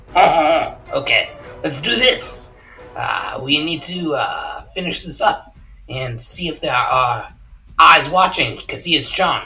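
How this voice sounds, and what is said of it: Put-on French accent. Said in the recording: “I got to get my French accent. ... Don't worry about getting the French accent on. ... No. French accent.”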